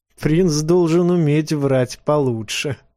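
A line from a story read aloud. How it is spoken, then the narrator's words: Laughing. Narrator (Russian): засмеялась она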